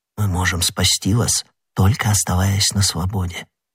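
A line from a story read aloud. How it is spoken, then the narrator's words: Quick whisper. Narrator (Russian): быстро шепнул ему Д'Артаньян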